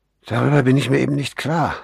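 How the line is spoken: Sighing. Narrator (German): seufzte Corrigan

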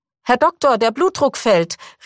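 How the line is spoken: Nurse calling out. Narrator (German): rief Schwester Selma nun

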